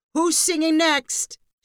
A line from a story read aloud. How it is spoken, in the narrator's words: shouted Professor Pitt